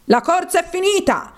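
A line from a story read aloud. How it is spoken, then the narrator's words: Bird suddenly shouting. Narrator (Italian): il marabù improvvisamente gridò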